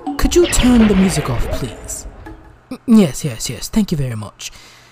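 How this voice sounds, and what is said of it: Cheap fake British accent. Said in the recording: “my $5 budgeted British accent”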